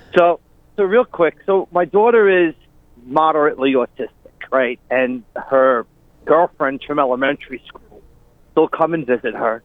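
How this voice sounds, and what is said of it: Long Island accent. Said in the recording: “We recognize that Long Island accent.”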